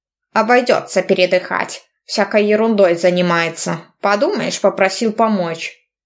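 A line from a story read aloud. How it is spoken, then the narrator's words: Grumbling. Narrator (Russian): ворчал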